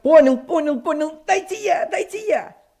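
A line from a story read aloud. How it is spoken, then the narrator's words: Shouted. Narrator (Russian): Сережка закричал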